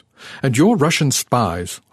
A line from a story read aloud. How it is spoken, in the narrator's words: Arnaud snapped, as if a blunt accusation